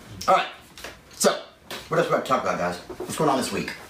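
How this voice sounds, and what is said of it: Strained, failing voice. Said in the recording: “I couldn't hit the note because my voice is kind of trying to go on me today”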